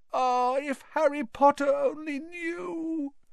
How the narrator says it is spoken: Dobby groaned, more tears dripping onto his ragged pillowcase

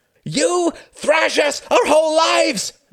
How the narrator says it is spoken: screamed Klaus

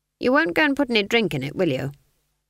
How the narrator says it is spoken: Granny said flatly

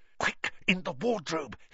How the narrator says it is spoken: hissed Harry

